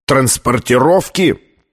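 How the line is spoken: Booming voice. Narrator (Russian): прогремел Колер

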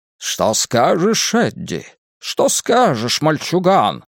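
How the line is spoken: Booming Southern gentleman voice. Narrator (Russian): спросил Ричи раскатистым голосом джентльмена с юга, хотя он более всего напоминал голос Фокхорна Лекхорна в мультфильмах Warner Brothers

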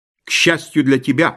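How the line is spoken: Snapping. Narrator (Russian): огрызнулся я

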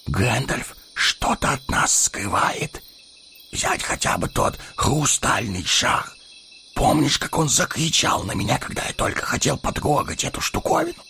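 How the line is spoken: Whispering. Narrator (Russian): зашептал Пипин

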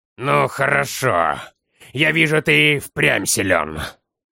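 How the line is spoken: Through gritted teeth. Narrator (Russian): Сквозь зубы процедил командир

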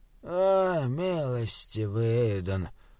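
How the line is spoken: Groaning. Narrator (Russian): простонал шут

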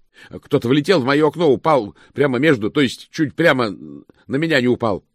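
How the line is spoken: Yelling man. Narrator (Russian): заорал человек

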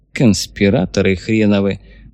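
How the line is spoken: Grumbled into a mustache. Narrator (Russian): буркнул густые усы товарищ Сталин

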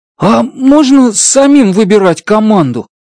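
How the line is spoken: Excited shout. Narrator (Russian): взволнованно выкрикнул Трэнк

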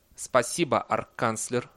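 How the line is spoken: Cold thanks. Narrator (Russian): холодно поблагодарил декан

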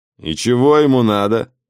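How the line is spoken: Rude inquiry. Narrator (Russian): Прежним грубым тоном осведомился он

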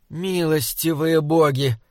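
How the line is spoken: Moan. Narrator (Russian): простонала Мэгвин

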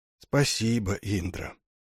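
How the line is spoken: Barely audible whisper. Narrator (Russian): чуть слышно шепчет он

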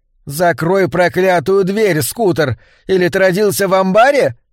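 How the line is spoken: Woman shouting from behind counter. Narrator (Russian): крикнула женщина из-за прилавка

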